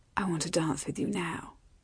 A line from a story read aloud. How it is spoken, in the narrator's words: she said, in a low voice only he could hear